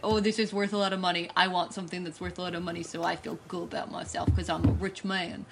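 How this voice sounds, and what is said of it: Put-on accent, mob boss voice. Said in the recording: “I don't know why I turned into that accent. It was real weird. ... you're trying to do an impression of Robert Downey Jr. doing an impression of Milo.”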